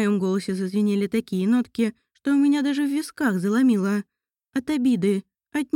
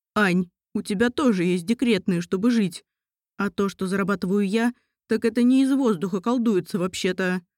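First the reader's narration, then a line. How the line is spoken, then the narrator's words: Through gritted teeth. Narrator (Russian): процедил Михайлов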